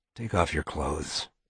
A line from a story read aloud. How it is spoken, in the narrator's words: he whispered